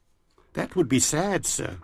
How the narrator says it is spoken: murmured Silvio

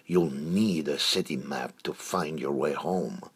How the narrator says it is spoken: snarled Froger

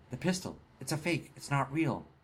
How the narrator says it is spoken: Trent stammered some and said

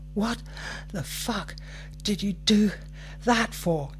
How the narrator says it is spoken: He wheezed

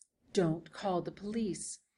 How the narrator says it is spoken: he whispered

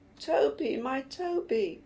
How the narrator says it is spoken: Ellie was wailing

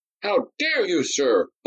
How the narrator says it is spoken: both seconds cried in unison

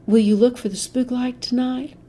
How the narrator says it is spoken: The lieutenant sighed

